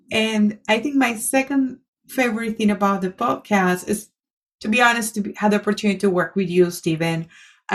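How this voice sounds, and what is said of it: Latina Spanish-accented English. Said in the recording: “my accent has improved ... I'm speaking slowly, or slower ... this Latina who was very insecure of her accent”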